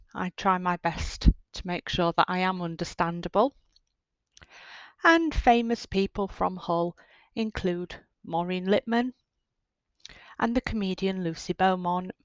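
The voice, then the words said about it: Hull accent, East Yorkshire English. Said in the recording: “known for its unusual accent ... my Hull accent”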